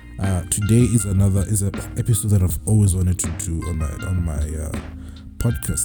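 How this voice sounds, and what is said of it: Sick, rough-sounding voice. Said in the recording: “I'm kind of sick also, judging from the way my voice is right now”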